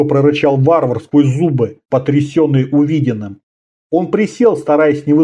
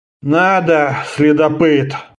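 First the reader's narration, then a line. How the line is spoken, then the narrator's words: Sigh. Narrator (Russian): вздохнул Фионос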